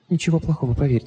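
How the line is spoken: Whisper. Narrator (Russian): прошептала она

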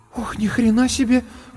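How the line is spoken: Breathless exclamation. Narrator (Russian): выдохнула

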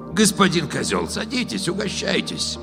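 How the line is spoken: Husky low female voice. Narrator (Russian): Хрипловатым баском предложила брюнетка

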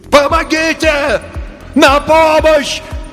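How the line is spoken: Distant faint shouting over radio. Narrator (Russian): кричал мистер Тиркель издалека на слабой радиоволне

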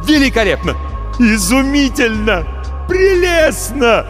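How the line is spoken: Wild unrestrained shouting. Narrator (Russian): кричал Марамбаль, не опасаясь, что его сочтут безумным

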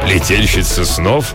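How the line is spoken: Old man laughing. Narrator (Russian): Старый рыцарь засмеялся

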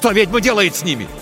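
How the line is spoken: Shout. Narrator (Russian): крикнул Тихон

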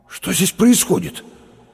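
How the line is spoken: Forced-out words. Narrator (Russian): выдавил через минуту Лопатиков

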